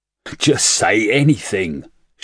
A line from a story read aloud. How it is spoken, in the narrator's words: Shi Qiang said with a laugh